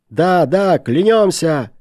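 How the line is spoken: Shouting in unison. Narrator (Russian): закричали все в один голос

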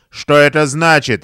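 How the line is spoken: Bark. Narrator (Russian): рявкнул он

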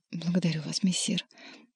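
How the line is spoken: Barely audible. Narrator (Russian): чуть слышно сказала Маргарита

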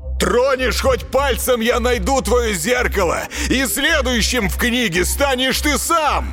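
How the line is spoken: Shouting. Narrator (Russian): Марк закричал

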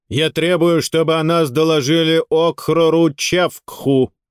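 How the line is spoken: Loud and clear. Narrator (Russian): громко и четко произнес он

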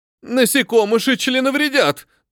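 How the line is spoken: Shrill squeal. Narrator (Russian): тот взвизгнул

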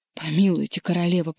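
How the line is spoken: Hoarse wheeze. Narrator (Russian): прохрипел он

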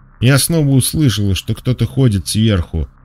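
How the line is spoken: Trembling child's voice. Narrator (Russian): дрожащим голосом начала девочка

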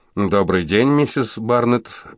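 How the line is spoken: Brisk businesslike tone. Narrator (Russian): произнес он бодрым деловитым тоном

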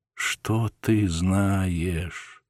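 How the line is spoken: Quiet question, woman. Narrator (Russian): тихо спросила дьячиха

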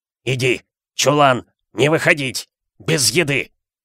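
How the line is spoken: Strained, forced out. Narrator (Russian): Он смог выдавить из себя

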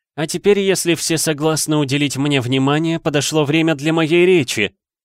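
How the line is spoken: Loud announcement, ghost. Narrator (Russian): громко сказал почти безголовый Ник

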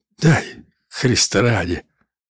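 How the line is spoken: Quiet cracked quavering plea. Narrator (Russian): просил он тихо на разбитым дребезжащим голосом

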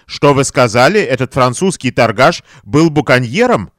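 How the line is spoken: Plain. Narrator (Russian): ответил Деберни

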